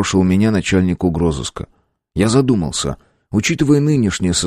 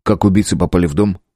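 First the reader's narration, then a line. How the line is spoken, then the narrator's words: Plain. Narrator (Russian): спросил я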